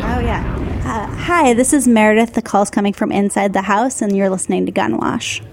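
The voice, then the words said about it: Cute, adorable voice. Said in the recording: “voice was very cute ... I have an adorable voice.”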